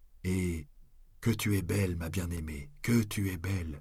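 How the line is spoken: Murmur. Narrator (French): me pris-je à murmurer

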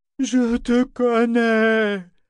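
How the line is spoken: Roar. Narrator (French): rugit Parangon

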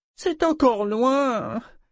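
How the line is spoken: Pitiful moan. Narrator (French): gémit pitoyablement Keki

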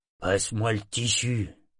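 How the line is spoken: Gruff tone. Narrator (French): fit le premier d'un ton bourru

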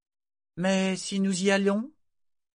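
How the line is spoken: Coaxing question. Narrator (French): demanda Malta d'un ton enjôleur

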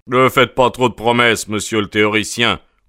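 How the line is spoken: Sharp, curt interruption. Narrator (French): coupa le détective officiel d'un ton cassant

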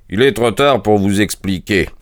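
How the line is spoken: Plain. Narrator (French): dit Holmes

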